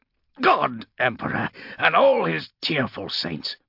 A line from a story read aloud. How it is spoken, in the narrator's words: he snarled